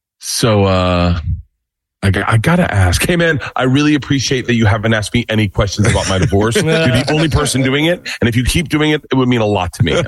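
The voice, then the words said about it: Imitates another person's voice. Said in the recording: “This is my impression of me and Tom talking about his divorce”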